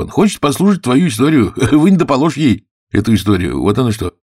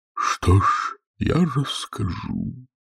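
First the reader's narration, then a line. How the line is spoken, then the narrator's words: Hollow, muffled voice. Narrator (Russian): проговорил Квази глухим голосом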